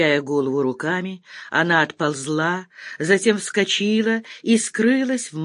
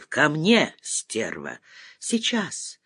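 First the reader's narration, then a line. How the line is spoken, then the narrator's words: Tearful voice. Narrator (Russian): Плачущим голосом откликнулась Валя Лариса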